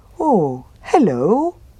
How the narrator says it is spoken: said the bear happily

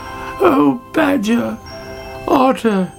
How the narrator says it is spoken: she cried

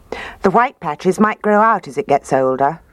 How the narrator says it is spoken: Daddy said

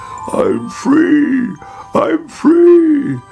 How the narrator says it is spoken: he croaked

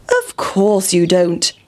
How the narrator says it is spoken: said the pig

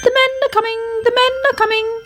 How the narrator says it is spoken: chirped anxiously

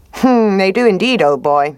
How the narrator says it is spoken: said the fox

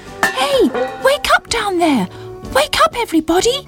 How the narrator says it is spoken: shouted

